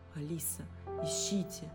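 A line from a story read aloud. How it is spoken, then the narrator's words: Secretive whisper. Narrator (Russian): шепнул Матс своим подопечным, стараясь, чтобы другие полицейские этого не заметили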